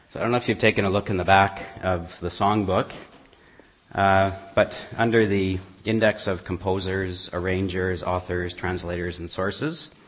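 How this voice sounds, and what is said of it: Husky voice from a cold. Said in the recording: “I've got a bit of a cold ... to help my throat ... I guess you get treated to my sexy voice today.”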